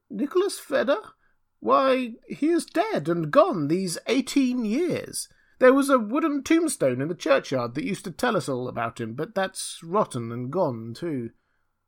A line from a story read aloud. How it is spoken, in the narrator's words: an old man replied in a thin, piping voice